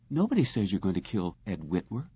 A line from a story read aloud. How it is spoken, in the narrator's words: Lisa continued rapidly in a thin, brittle voice